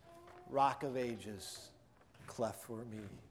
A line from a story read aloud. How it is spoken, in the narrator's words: he began to sing in a low voice